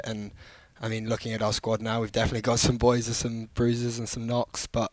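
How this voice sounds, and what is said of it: Noticeable non-American accent. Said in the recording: “They can hear the accent.”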